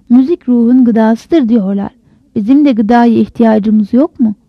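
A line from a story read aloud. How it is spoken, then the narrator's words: Dumbfounded stammering. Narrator (Turkish): Orhan apıştı kaldı, kekeledi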